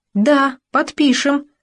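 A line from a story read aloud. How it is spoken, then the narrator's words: Thin squeak. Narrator (Russian): тонко пискнула Галя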